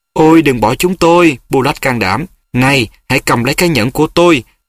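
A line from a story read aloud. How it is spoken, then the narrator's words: Pleading. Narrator (Vietnamese): Joan bắt đầu cầu xin hắn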